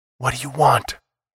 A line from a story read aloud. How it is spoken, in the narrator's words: Foster whispered